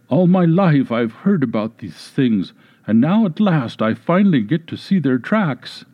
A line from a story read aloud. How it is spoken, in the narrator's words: she excitedly exclaimed